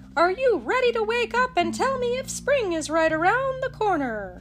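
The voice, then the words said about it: Rackety crow voice. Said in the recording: “in his rackety voice”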